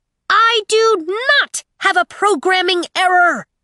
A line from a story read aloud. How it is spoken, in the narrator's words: Aiko's irate voice screeched from behind one of the towering shelves